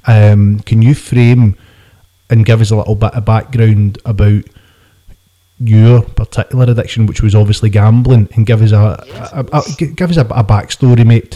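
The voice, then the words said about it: Glasgow Scottish accent. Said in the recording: “we're two just normal working class guys from in and around the Glasgow areas, you can probably tell with accents.”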